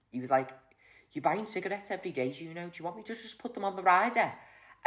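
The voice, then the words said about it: Imitated Scouse Liverpool accent. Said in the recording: “That was a great impression of Mark ... that was a spot-on impression ... he's full-on Scouser. Like, he talks like that.”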